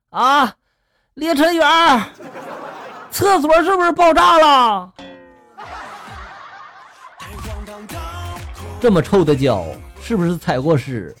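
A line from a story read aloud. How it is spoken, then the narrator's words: Loud roaring. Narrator (Chinese): 二货室友们大声的就吼了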